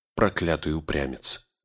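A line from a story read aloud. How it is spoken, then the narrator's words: Rueful mutter. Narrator (Russian): сокрушенно пробормотал Леголас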